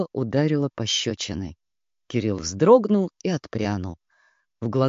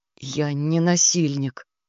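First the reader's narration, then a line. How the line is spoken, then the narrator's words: Strained, forced words. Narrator (Russian): выдавил он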